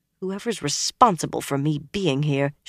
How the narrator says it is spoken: she muttered

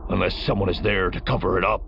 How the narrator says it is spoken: Rivlex growled

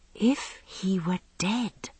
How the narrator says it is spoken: I whispered at last

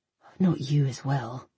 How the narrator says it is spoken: I sighed

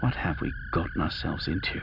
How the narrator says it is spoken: He asked with a sigh

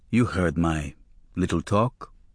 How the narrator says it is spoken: Reb Saunders asked me quietly

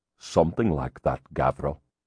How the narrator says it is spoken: Balder muttered

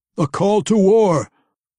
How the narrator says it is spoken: Wulfgar roared

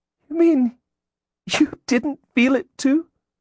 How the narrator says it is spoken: she gasped

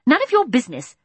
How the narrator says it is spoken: snapped Mary Poppins

